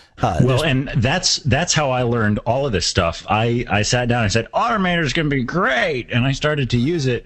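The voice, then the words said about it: Faux English accent. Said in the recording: “did you actually use your faux English ... Accent?”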